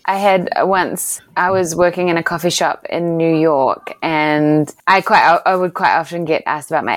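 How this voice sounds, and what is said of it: New Zealand accent. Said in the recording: “I love your accent... I'm from New Zealand”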